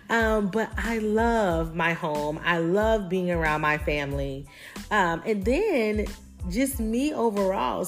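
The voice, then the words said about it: Southern US country twang. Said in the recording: “a little country, little twang in there, I am from South Carolina”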